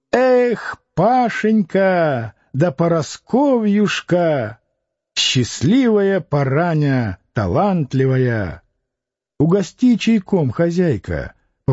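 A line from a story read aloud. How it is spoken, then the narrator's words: Gypsy shriek, new voice. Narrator (Russian): Дуняша взвизгнув по-цыгански, выкрикнула новым голосом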